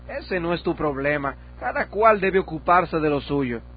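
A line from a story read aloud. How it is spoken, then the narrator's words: Exclaiming. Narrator (Spanish): Presunción exclamó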